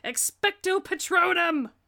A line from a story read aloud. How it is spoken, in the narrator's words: Harry shouts